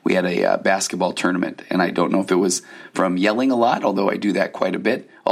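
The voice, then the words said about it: Hoarse, nearly lost voice. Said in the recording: “Man, my voice is gone. ... My voice left me on Thursday night, and by Friday, it just got progressively worse.”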